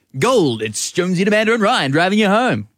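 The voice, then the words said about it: Impression of Brendan Jones' radio voice. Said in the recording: “What are you doing this voice for? ... that's what you sound like. Brendan Jones.”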